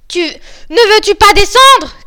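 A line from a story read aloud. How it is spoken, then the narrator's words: Shouted. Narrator (French): cria la Barbe Bleue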